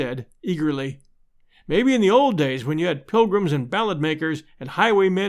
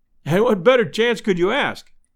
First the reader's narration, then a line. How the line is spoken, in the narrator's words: I cried